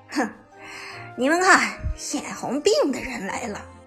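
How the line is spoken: Sneering. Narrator (Chinese): 冷笑着说道

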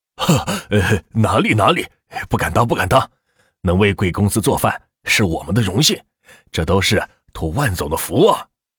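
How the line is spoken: Smiling. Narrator (Chinese): 小雪笑着说道

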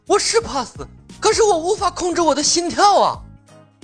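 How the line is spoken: Rising then hushed voice. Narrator (Chinese): 随着他的声音加大，连忙又把声音压低了下去

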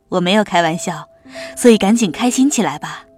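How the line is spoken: Playful laughing. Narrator (Chinese): 他嬉笑道

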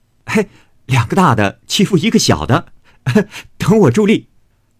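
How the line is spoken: Laughing. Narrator (Chinese): 宝玉笑说

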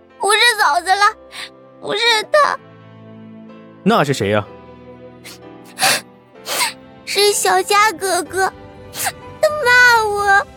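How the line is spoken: Hasty tearful shout. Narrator (Chinese): 沈如月……痛哭……连忙喊道

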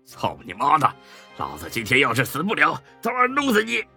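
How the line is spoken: Angry cursing. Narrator (Chinese): 冯三儿大骂起来

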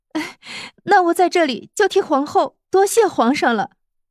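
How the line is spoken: Happy, laughing. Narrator (Chinese): 慕容菲菲很是高兴的笑了笑，然后说道

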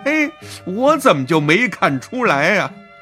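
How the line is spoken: Laughing happily. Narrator (Chinese): 这张大林却笑得特别开心，还说什么

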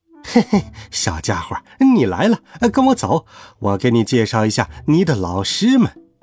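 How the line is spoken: Cheerful laughing voice. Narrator (Chinese): 他笑着说

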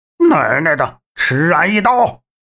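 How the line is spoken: Furious cursing shout. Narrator (Chinese): 鄂老四怒目圆睁，鼓着嘴骂道

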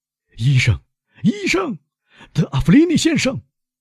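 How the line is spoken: Shouting. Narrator (Chinese): 威勒夫喊道

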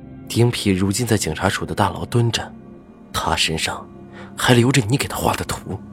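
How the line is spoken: Deep, low voice. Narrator (Chinese): 赵石南沉声道

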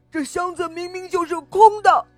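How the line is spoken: Loud protest. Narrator (Chinese): 老虎大声的辩解道

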